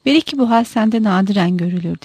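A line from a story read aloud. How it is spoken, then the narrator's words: Plain. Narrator (Turkish): dedi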